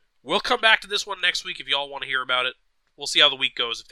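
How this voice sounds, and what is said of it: Hoarse, fading voice. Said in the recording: “quite honestly, I'm losing my voice a little bit”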